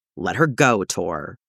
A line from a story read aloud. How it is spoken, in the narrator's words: growls